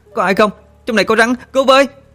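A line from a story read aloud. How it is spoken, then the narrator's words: Panicked screaming. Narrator (Vietnamese): Sương hốt hoảng hét toáng lên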